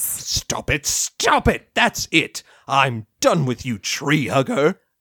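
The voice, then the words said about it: Loud, shouting angry voice. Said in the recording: “lower your voice a skosh”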